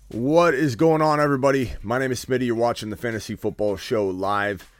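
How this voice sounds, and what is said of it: Sick, low-energy voice. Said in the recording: “I'm a little under the weather, so pardon my low energy ... pardon my voice.”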